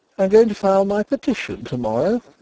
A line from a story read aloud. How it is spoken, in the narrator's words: said he, and gave a short laugh